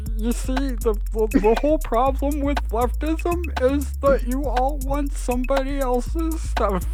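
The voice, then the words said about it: Imitates another person's voice. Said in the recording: “do a Jordan Peterson impression”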